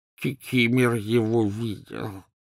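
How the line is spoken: Hoarse wheeze, elf. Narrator (Russian): просипел эльф

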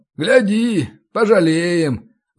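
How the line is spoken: Muffled sigh into beard. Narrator (Russian): вздохнул он в бороду

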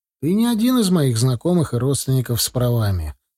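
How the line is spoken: Calm. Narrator (Russian): спокойно ответил ему

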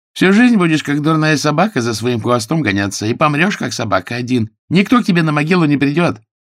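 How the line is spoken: Shouted after someone. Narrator (Russian): Цыганка крикнула в спину

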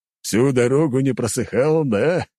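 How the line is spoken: Loud laughter. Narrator (Russian): расхохотался Леонид

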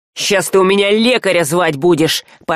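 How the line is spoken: Irritated threat. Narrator (Russian): пообещал Саврянин, раздраженно

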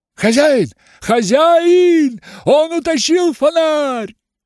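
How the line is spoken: Old man shouting. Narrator (Russian): закричал старик

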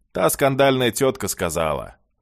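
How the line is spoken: Grunting highlander. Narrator (Russian): горец хмыкнул и добавил

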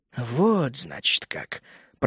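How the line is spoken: Muttered. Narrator (Russian): пробормотал первородный

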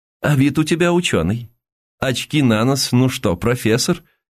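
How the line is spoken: Thin high laughter. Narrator (Russian): Он тоненько засмеялся

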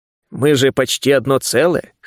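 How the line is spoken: Wry snort. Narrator (Russian): хмыкнул я

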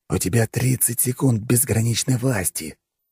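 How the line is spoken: Quiet hoarse voice. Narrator (Russian): тихо проговорил я хриплым голосом

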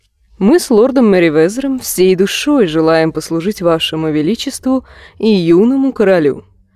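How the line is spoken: Purring. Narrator (Russian): промурлыкала мирийка

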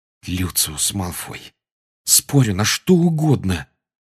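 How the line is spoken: Quiet and furious. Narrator (Russian): тихо и с яростью проговорил Гарри

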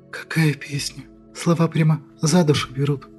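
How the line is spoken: Sniffling whisper. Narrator (Russian): Шмыгнув носом, прошептала Аннушка

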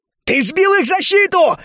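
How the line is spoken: Joyful exclamation. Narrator (Russian): радостно воскликнул рейнджер

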